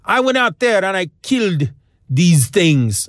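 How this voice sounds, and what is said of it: Bad put-on French accent. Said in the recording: “This is my French accent, which is really bad.”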